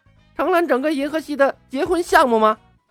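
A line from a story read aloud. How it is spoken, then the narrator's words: Strange shriek. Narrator (Chinese): 火箭浣熊怪叫了一声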